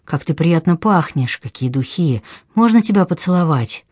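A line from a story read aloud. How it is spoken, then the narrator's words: Gentle, light voices. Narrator (Russian): Эти голоса, ласковые и легкие, как бумажный серпантин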